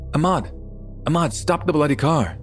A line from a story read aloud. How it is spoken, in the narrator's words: yelling